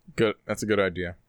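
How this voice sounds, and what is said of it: Flat, depressed, defeated tone. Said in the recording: “You sound so depressed. ... You sound so defeated.”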